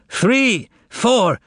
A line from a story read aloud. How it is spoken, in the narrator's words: snapped his fingers and shouted cavalierly